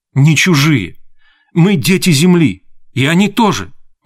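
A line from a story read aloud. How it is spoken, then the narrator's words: Exclaimed. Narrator (Russian): воскликнула Нея Холли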